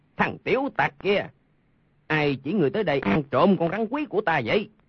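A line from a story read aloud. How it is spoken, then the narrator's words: Angry shout. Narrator (Vietnamese): Lương Tử Ông tức giận quát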